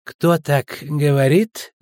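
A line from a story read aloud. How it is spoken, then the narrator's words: Creaky laugh. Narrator (Russian): скрипуче засмеялся Линус Пит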